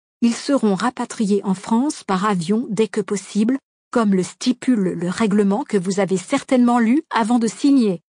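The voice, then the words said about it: Strong English accent in French. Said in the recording (French): “répond-il avec son fort accent anglais”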